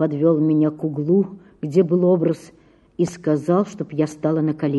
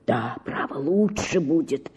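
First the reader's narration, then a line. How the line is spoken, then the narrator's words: Whisper. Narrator (Russian): шептал он мне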